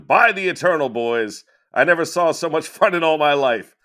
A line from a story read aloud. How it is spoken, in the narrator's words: Jackson exclaimed